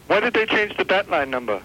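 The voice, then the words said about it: Mediocre put-on accent. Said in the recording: “How long have you been working on this accent? ... it's not bad ... I give it about a 3.5. ... You polish it up a little, we might get you up to a 5.”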